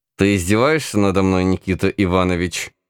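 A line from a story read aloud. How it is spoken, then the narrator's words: Growled through teeth. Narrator (Russian): сквозь зубы прорычал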